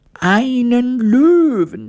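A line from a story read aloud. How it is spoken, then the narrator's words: Queen screaming in horror. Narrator (German): schrie die Königin entsetzt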